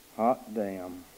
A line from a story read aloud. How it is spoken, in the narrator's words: Wick said softly